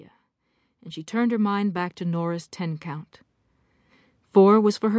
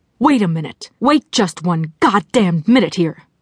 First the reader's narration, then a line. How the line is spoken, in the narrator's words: The no-bullshit voice broke in furiously